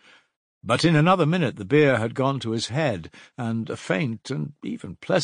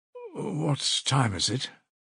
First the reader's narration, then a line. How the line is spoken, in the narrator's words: asked Raskolnikov, looking round uneasily